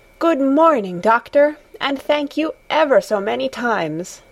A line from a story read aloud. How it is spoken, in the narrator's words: exclaimed in the joy of her heart